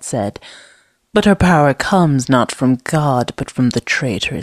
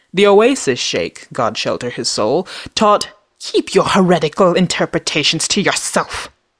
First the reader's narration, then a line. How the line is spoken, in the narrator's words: Zad spat